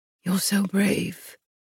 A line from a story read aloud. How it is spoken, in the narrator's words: he murmured